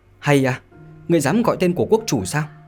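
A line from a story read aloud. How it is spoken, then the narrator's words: Young man's sharp shout. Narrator (Vietnamese): người thiếu niên thấp nhỏ kia đã quát nói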